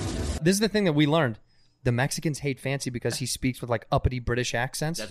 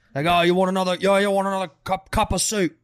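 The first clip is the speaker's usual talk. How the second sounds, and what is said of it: Put-on Cockney accent. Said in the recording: “Down here, it's like Cockney.”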